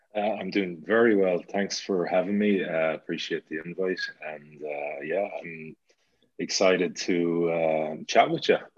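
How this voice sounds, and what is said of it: Slight Irish accent. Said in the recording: “I can hear a little accent. ... I'm from the west of Ireland, the wild west coast of Ireland, the city, an Irish city called Galway.”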